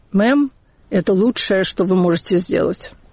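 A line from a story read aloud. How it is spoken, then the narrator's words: Tired. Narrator (Russian): оператор сказал устало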